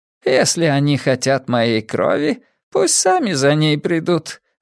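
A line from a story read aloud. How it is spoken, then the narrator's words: Laughing. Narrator (Russian): рассмеялась она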